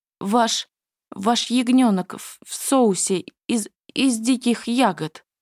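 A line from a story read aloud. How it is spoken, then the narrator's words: Nervous babbling. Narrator (Russian): пролепетал он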